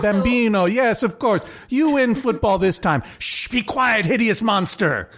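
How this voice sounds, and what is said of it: Bad put-on Italian American accent. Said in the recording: “This is an offensive. If I were not half Italian American, I even then it's offensive. So I apologize to all my Italian American listeners, and also to all of my listeners who can do good accents.”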